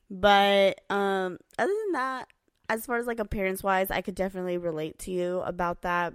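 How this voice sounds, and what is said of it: Weak, worn-out voice. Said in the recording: “Sorry if you guys can't hear me. I'm trying to project my voice. ... My voice is gone. ... And I'm tired, early. But my voice is gone.”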